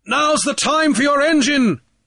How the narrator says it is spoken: Grief bellowed

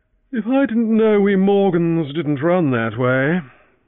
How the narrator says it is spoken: he yawned

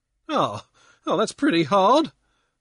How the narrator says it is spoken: Pankburn whined

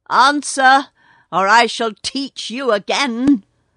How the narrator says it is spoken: roared Kotick

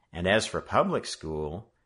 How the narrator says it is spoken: he sighed deeply at the thought of it

